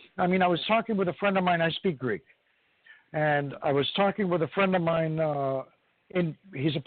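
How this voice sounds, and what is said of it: Usual voice. Nothing is said of it.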